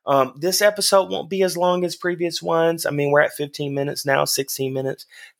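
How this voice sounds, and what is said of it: Slightly hoarse voice. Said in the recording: “My voice is just a little bit hoarse today ... even with a hoarse voice.”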